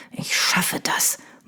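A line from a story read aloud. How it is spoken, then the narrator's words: Murmuring. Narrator (German): murmelte er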